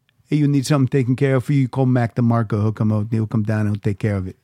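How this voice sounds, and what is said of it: Mobster gangster movie voice. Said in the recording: “That's an awful impression. ... That's my good Goodfellas impression.”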